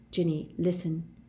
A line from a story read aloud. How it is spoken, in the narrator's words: he said very quietly, as the buzz of conversation grew louder around them